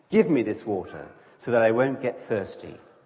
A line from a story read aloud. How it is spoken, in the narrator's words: she says